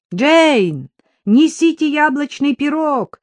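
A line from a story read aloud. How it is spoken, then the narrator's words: Shouted. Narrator (Russian): крикнул Джек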